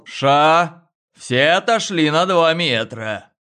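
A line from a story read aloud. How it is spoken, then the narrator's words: Loud driver. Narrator (Russian): водитель громко сказал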